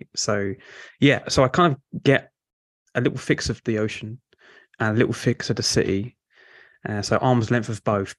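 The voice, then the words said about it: Mild South London Cockney accent. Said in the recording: “I'm from South London. So listeners might pick up the kind of diluted Cockney accent”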